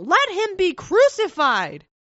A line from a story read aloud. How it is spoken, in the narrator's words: they cried out the more, saying